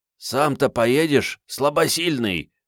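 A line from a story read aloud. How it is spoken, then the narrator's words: Old man's wheeze. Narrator (Russian): прохрипел дедок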